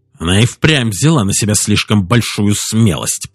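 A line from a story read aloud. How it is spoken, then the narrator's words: Grumbling. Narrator (Russian): проворчал Лептерн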